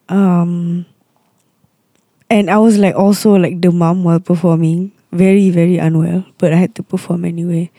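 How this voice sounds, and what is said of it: Hoarse, partly lost voice. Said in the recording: “I guess that's why I lost my voice. Performing back to back.”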